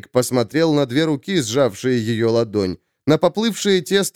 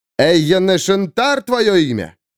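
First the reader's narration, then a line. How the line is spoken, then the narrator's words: Calling after someone. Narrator (Russian): крикнул вдогонку Джейк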